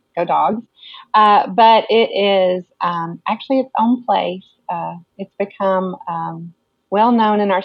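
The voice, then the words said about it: Slight Georgia Southern accent. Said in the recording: “that little Georgia accent coming out”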